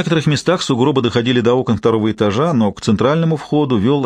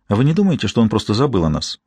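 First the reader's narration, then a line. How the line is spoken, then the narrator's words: Plain. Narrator (Russian): спросила она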